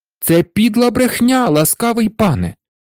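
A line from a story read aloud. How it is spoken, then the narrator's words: Exclaiming. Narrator (Ukrainian): вигукнув Петр, вислухавши наклепницьке звинувачення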